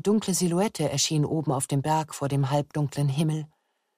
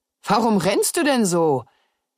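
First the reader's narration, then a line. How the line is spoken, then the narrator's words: Laughing. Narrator (German): Er lachte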